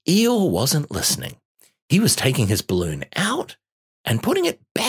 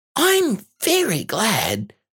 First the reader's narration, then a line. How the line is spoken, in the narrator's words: said Piglet happily